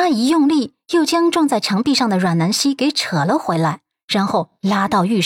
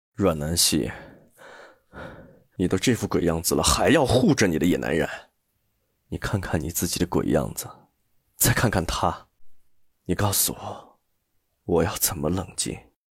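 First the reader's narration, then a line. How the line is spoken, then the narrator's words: Through gritted teeth. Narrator (Chinese): 他咬牙切齿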